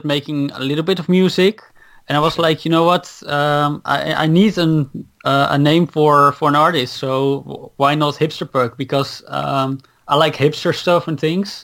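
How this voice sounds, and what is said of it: Dutch accent in English. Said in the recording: “So I noticed you have an accent. ... I'm Dutch. ... from Holland”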